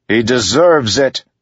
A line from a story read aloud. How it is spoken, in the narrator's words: bellowed at those clouds